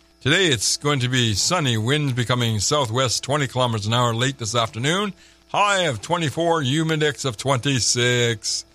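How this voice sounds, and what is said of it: Announcer-style radio voice. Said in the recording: “So I put my radio voice on so I can do it right.”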